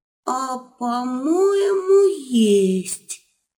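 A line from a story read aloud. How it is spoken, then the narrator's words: Slow and very quiet. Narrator (Russian): Медленно и чересчур тихо проговорил Серый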